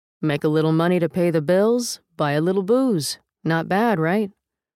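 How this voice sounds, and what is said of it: New Jersey accent. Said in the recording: “in a New Jersey accent”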